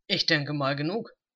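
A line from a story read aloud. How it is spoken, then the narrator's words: Grumbling. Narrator (German): brummte er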